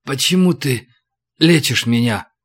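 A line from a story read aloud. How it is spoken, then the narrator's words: Hoarse question. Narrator (Russian): спросил он сипло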